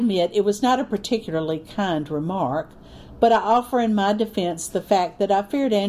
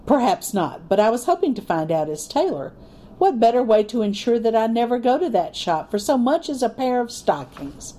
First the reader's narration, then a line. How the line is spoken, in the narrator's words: Andrew laughed